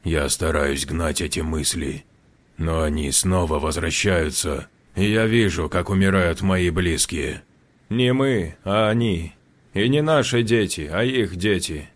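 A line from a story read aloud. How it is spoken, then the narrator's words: Correcting. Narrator (Russian): поправил его Жорж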